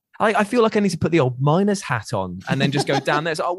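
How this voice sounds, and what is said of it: Put-on Newcastle Geordie accent. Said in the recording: “I went Newcastle ... wasn't an accent I chose basically because of the mining culture”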